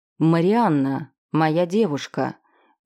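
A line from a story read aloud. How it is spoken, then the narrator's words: Menacing. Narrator (Russian): Боевик проговорил грозно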